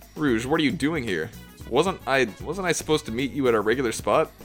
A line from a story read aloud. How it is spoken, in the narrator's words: Wave spluttered